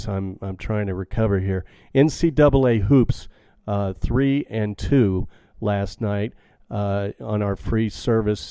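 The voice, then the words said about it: Sick-sounding voice. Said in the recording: “me being sick, as you can probably still hear in my voice.”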